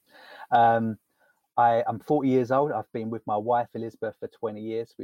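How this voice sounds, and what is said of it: Posh English London accent. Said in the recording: “I come from England, originally born and raised in London. That's where the posh English accent comes from.”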